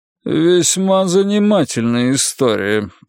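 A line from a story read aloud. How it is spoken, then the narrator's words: Grumbling. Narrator (Russian): проворчал судья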